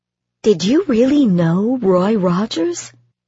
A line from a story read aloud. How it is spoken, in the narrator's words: Bob puffed out a laugh